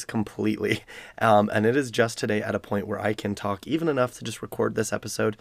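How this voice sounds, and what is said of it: Weak, strained voice. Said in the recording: “as you can probably hear from my voice, I am still recovering from a sickness where I lost my voice”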